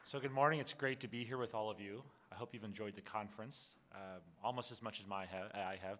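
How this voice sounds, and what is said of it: Strained, worn-out voice. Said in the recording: “My voice is suffering a bit, maybe from too much exuberance”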